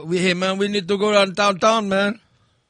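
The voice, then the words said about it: Imitates an Indian accent. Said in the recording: “these Indian guys ... from the country ... It was the weirdest accent ever.”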